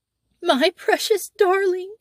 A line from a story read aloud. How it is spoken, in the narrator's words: wailed the mother